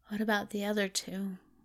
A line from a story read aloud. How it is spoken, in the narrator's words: He mumbled